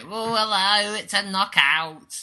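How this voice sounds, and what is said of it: Imitates another person's voice. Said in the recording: “my Keith Chegwin impression”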